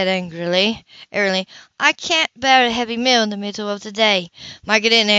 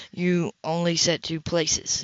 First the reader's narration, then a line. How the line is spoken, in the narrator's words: he said quietly